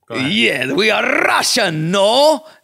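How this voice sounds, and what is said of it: Put-on Russian accent. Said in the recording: “can you do a Russian accent?... it's close to Greek... that's kind of Borat”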